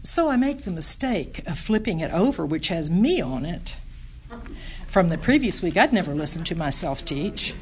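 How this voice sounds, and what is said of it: Southern US accent. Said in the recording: “My southern accent”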